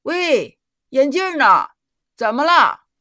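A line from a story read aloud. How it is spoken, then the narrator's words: Loud shouted question. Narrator (Chinese): 一个牧羊人大声喊着问道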